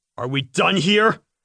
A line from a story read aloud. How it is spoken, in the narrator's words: I asked in a stern voice